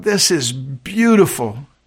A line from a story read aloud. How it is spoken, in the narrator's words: The splendor of it all made him catch his breath, and he exclaimed out loud